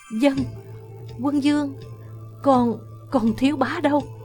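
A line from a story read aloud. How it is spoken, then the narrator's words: Trembling woman's voice. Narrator (Vietnamese): Giọng Quân phu nhân run run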